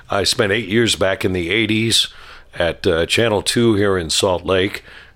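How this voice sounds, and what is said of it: Congested voice from a cold. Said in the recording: “I have a bad cold, so if I cough, you'll have to forgive me.”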